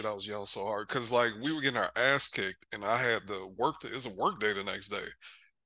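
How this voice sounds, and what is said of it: Hoarse, not fully recovered voice. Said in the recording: “I was in that bitch going hoarse. I don't know if my voice is still. I think my voice is still not fully recovered.”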